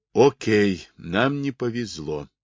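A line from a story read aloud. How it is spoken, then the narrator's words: Soothing tone. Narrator (Russian): сказал Блуи успокаивающим тоном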